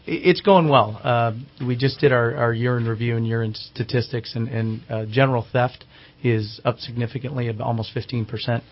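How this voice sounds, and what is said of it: Slightly raspy, hoarse voice. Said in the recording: “I'm suffering from a little bit of a cold, so I'm a little raspy”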